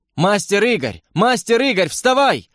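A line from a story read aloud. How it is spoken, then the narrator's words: Yelling close to ear. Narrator (Russian): вопили у меня над ухом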